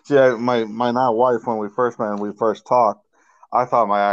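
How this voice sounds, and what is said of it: Massachusetts accent. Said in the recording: “I love how you still have your Massachusetts accent ... you still sound like you're from the North”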